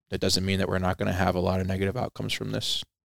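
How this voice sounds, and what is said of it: American East Coast accent. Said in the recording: “anybody listening can hear by your accent, you're from the East Coast.”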